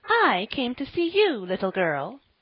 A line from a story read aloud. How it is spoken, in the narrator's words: said Miss Jerusha severely